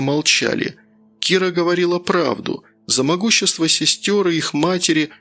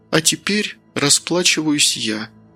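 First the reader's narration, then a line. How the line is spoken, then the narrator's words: Quiet speech. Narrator (Russian): тихо произнесла Маргарита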